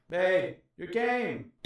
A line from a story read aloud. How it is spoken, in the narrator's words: Dominic shouted from the couch